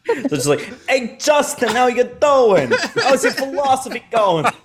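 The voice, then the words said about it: Thick put-on New York accent. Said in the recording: “super thick New York accents.”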